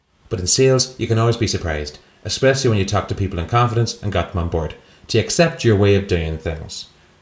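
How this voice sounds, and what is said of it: Poor put-on Irish accent. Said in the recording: “do that sentence in an Irish accent ... Was that the worst Irish accent anyone's ever heard? I've never heard you do a worse one. ... Irish, Jamaican.”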